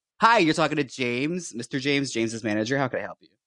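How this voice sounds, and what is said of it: Put-on manager character voice. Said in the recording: “I'm going to put my manager on the phone just one second ... I can't do that voice the whole podcast”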